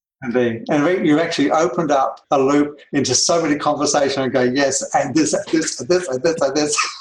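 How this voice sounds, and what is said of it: Australian accent. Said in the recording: “I love the way you talk, too. I love that accent. ... from beautiful downtown Australia”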